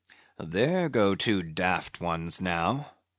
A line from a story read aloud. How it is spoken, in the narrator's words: muttered the old Manxman